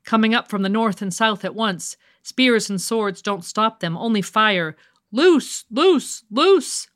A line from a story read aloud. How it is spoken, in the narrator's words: a voice screamed in the night